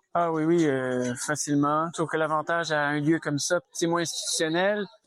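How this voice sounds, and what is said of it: Quebec French accent. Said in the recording (French): “Et vous avez un accent québécois, non? ... Exactement, bien entendu.”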